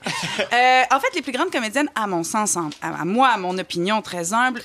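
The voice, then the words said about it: Put-on French accent. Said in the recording (French): “je vais faire toute ma chronique avec accent français”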